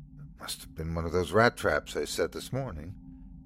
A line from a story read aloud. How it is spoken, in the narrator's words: she whispered to the dog